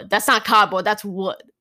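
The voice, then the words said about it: Thick New York accent. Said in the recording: “Thickest New York accents... he's that accent”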